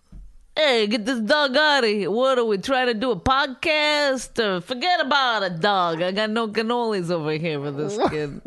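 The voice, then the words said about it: Exaggerated put-on New Jersey accent. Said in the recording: “Is that a good Jersey accent? Because I've been trying to do a Jersey accent. ... It sounds ridiculous.”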